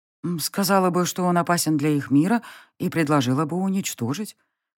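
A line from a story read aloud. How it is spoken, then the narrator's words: Uncertain. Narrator (Russian): произнесла неуверенно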